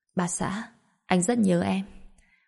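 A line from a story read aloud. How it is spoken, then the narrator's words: Soft laugh. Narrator (Vietnamese): Bạch Diệp Phi khẽ cười nói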